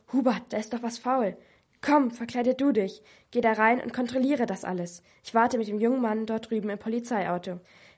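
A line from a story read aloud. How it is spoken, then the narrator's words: Hissing. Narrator (German): Herr Astra zischte zu Herrn Pfister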